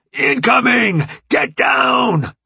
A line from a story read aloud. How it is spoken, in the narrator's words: Jones yelled over the sound of rending metal and animalistic screams